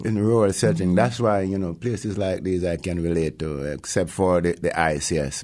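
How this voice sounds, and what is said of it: Jamaican accent. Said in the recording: “obviously from your accent, you did not grow up in Alaska ... I grew up in Jamaica, in the hills of Jamaica.”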